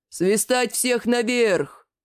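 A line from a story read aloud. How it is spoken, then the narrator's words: Deep booming voice. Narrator (Russian): Забасил Лигнурф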